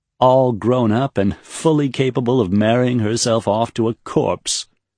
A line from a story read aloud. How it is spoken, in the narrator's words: Serene laughed weakly